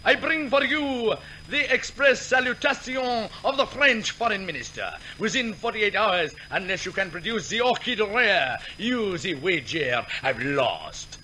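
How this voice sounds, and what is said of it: Exaggerated musical comedy French accent. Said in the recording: “he says in a rare old musical comedy accent”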